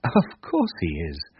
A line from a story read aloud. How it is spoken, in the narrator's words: answered Arthur, laughing